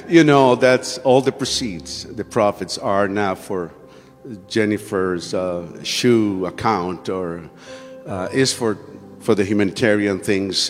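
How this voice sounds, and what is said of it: Non-native English accent. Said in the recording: “even if you don't understand my accent”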